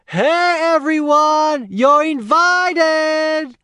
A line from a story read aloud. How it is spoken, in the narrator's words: began shouting